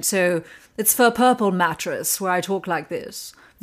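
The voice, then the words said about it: Posh British accent, Elizabeth Hurley-like. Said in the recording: “in a very British... like a posh British accent... I was thinking like Elizabeth Hurley”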